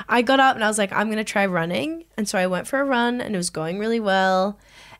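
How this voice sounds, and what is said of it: Sore, strained voice. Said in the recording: “I'm like falling apart. I think my voice is sore. I'm like not on my A game”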